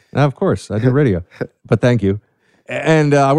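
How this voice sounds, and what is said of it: Usual voice. Nothing is said of it.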